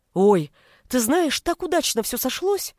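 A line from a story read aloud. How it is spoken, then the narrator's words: Exclaimed. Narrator (Russian): воскликнула Женя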